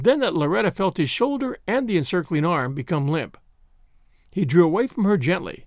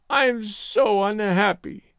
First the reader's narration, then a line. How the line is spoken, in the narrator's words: she wailed